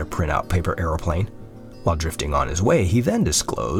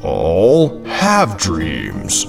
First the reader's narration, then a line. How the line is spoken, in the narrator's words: the glass office building boomed